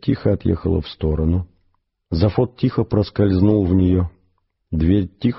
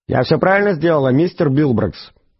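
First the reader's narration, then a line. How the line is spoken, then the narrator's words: Loud question. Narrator (Russian): громко поинтересовалась дверь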